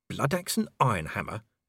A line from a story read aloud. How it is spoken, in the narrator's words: he muttered